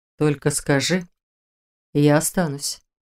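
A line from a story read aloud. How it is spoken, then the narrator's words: Soft. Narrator (Russian): продолжил Шелтер мягко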